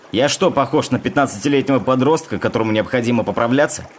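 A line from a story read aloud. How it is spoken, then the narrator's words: Mock-angry shout. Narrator (Russian): крикнул Генри жене, притворившись рассерженным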